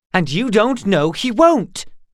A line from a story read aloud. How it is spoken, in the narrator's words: snapped Gar